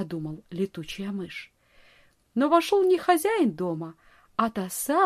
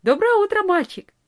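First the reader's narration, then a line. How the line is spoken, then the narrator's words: Cheerful. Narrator (Russian): весело сказала она ему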